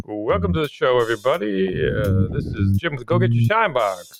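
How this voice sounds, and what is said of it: Radio announcer voice. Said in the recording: “That's my radio voice”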